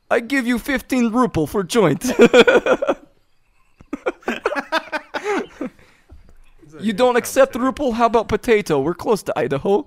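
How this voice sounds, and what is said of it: Poor put-on Russian accent. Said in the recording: “give me a sample of your Russian accent ... a conversation with himself in a shitty Russian accent”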